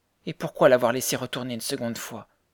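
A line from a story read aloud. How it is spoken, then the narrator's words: Reproachful question. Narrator (French): demanda Mary d'un ton de reproche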